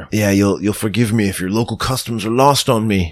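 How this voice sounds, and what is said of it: Out-of-town Imperial accent. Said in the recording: “As you can hear by my accent, I'm from out of town ... I can tell the Imperial from here.”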